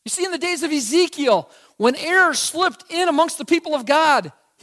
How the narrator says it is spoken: he cried out

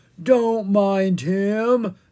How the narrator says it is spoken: Ella groaned

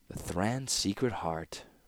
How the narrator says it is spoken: murmured Tokasia

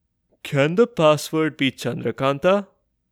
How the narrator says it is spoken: Virendra asked, dreamily

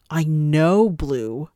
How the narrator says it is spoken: Shallot exclaimed

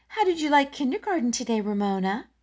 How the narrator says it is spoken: asked Mary Jane in a bright, false tone

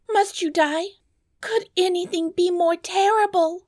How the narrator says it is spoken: cried the princess

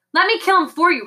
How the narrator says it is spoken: Rictus managed to gasp

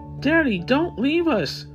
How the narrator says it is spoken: the 5-year-old pleaded

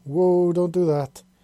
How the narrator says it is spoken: he exclaimed

